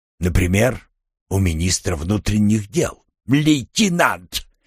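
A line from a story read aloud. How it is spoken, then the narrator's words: Major's bark. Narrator (Russian): рявкнул майор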